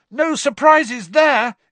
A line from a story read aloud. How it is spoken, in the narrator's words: yelled Ron